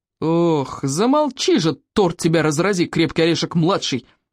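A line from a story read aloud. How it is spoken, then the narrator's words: Roared. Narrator (Russian): взревел плевака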